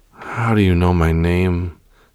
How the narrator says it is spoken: she muttered

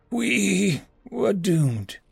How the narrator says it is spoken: sighed

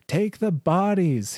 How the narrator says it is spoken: he yelled, still on the ground

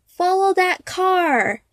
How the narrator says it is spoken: his companion shouted

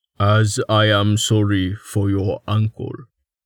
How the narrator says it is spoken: Tallheart rumbled slowly, taking a deep breath

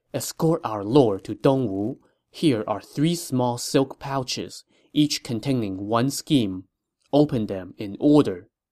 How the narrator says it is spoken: whispered in his ear

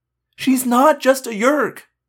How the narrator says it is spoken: I begged

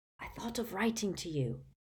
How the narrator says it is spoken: he whispered

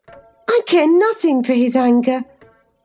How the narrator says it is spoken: exclaimed Cathy, imagining she would be its object

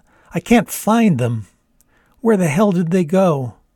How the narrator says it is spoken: sobbed some more

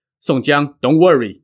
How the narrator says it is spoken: Gao Qiu said

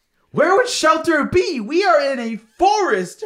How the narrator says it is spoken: shouted Sarah

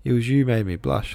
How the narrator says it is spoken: laughed Alyosha

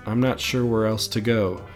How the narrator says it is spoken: Rocco sighs

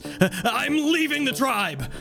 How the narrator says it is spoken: Rocco shouts

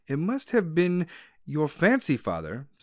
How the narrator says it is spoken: said wife, regarding him anxiously

